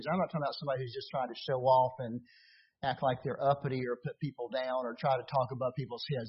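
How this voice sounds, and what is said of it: Rural Appalachian Southern US accent. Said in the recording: “being a hick from the mountains in Hendersonville, North Carolina ... You could tell I didn't lose my hick accent very much”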